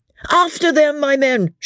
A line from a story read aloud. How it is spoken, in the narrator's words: shouts the captain